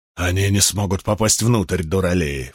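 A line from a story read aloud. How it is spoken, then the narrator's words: Snort. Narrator (Russian): фыркнул Бидвелл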